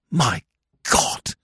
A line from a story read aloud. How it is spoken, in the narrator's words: he whispered